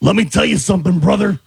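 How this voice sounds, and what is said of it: Hulk Hogan impression. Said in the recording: “Hulk Hogan.”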